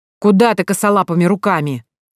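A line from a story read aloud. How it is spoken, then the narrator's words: Sharp scolding shout. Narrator (Russian): прикрикнул он на Элю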